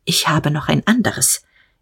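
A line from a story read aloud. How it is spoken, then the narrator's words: Brief and quiet. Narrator (German): sagte, kurz und leise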